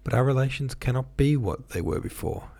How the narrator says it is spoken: Anna began in a timid voice, looking at him with frightened eyes

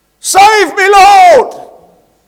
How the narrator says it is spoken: He shouted

